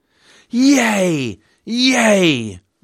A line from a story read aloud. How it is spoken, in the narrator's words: roared the crowd